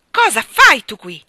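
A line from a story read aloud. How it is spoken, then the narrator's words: Yelled. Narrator (Italian): urlò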